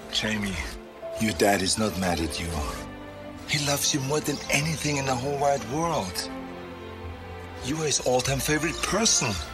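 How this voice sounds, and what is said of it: Heavy foreign accent. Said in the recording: “You can hear that goddamn accent. No, you can't modulate that shit. That heavy ass accent, you can't modulate that.”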